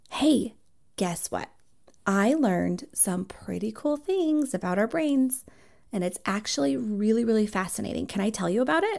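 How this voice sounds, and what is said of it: Engaging, captivating teacher voice for kids. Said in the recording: “really cool teacher voice on to get kids like engaged ... my voice is going to change into like a captivating voice”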